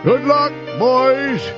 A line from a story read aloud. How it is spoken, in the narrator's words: He cried